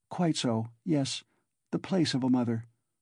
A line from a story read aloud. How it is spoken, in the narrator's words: Sonia answered, timidly and hurriedly